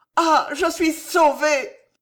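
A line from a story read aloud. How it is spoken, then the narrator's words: Echoing cry. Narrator (French): cria Alice d'une voix qui se répercuta en longs échos dans la grande nef silencieuse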